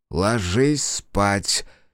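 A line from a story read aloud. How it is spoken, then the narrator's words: Forced, strained. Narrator (Russian): через силу выдавил мужчина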